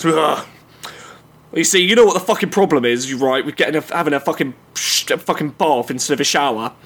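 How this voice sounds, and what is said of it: Man voice character. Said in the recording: “get myself into character of this of man ... in my man voice”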